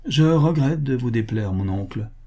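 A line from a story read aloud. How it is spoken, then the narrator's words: Cold. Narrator (French): dit-il froidement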